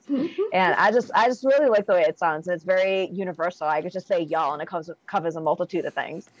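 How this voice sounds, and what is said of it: Thick Boston accent. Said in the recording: “I have a pretty thick Boston accent ... I've known people from Massachusetts that don't have the accent that you have”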